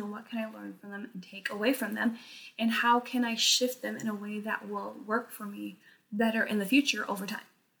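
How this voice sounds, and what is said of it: Strained voice giving out, rushed. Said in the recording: “my voice is giving out ... I feel like I'm rushing my words ... my voice is just like breaking down”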